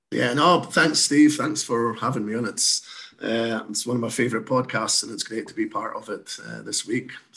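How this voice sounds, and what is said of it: Slight Scottish accent. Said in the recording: “you may detect I've got a slight accent. So, uh, I'm originally from Scotland”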